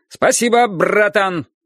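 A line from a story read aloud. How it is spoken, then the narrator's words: Loud thanks. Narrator (Russian): громко поблагодарил он Марка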